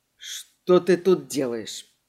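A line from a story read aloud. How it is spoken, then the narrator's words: Wheezing, constricted throat. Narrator (Russian): просипел Эдди, потому что горло вдруг свело, и дышать стало сложно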